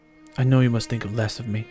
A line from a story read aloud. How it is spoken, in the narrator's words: Kyver says